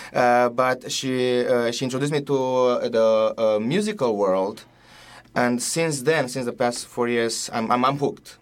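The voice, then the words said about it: Romanian accent. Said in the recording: “I'm from Romania ... with my accent, it's very hard to understand”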